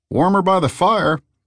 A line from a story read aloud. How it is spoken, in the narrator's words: the bartender called out